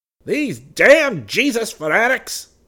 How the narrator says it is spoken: He yelled

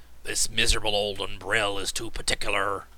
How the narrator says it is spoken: growled Cap'n Bill

